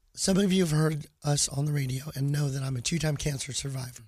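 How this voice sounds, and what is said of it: Weak, impaired voice. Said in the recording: “my voice is what it is ... my voice is not working ... my voice takes so long to get back”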